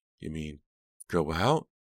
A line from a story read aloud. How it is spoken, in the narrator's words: Delia heard her voice squeak